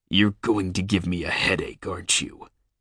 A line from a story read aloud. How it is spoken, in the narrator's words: His gruff voice rumbled